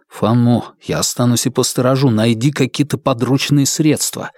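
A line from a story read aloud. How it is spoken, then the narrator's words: Quiet voice. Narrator (Russian): сказал тихим голосом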